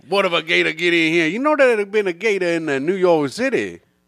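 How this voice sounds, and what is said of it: Poor put-on Cajun accent. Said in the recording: “you doing a Cajun accent ... That's not even that good of a one. ... It sucks. ... I ain't a very good Cajun character.”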